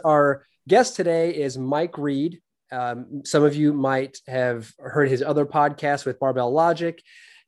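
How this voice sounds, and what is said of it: Voice affected by a cold. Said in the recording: “I'm coming off a little bit of a cold ... my voice might be going in and out a little bit”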